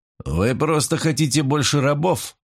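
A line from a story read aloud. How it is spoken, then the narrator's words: Grumbled. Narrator (Russian): проворчал Севица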